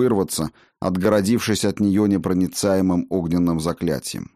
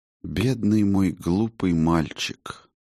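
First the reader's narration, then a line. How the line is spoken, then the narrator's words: Quiet. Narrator (Russian): негромко произнесла она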